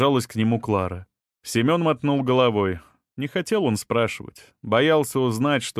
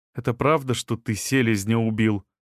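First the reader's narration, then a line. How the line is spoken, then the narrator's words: Plain question. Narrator (Russian): спросила Клара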